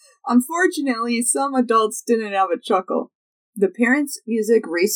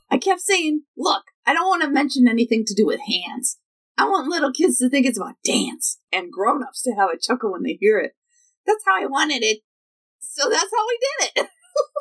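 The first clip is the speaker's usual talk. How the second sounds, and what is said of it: Poor impression of another person's voice. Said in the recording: “This is the worst impression. ... My impression is falling off the rails.”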